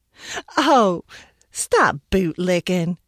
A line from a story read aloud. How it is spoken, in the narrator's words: she laughed